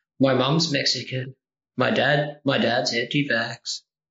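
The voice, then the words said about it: Low, flat deadpan delivery. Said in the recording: “I was doing you deadpan. I was trying to do an impression of you deadpan. ... Oh, it was too low.”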